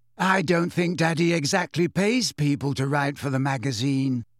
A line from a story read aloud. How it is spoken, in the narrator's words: said Luna dreamily